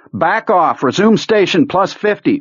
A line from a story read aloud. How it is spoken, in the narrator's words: Owen shouted